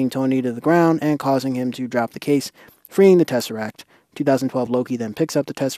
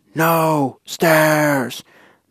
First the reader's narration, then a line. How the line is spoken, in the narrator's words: 2012 Hulk bursts into the lobby and he yells